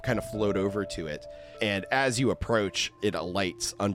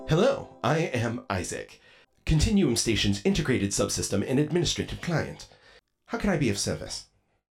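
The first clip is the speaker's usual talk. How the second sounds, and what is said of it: Male voice with British accent. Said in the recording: “a voice, male with a British accent”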